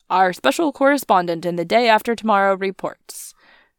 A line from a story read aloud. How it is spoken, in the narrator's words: the journalist was saying, or rather shouting